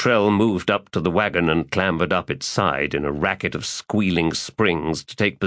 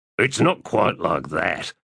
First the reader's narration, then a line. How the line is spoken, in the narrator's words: Gruntle said quietly